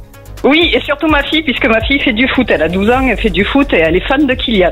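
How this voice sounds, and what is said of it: Southern French Aveyron accent. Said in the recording (French): “J'adore l'accent de... T'es dans l'Aveyron ... Et vous avez un bel accent dans, dans l'Aveyron.”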